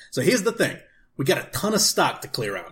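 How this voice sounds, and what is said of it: Put-on character accent of unclear origin. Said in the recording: “I don't know where this accent is from.”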